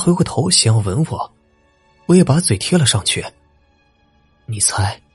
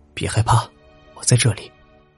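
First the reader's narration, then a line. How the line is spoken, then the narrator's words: Soft, reassuring. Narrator (Chinese): 轻声的说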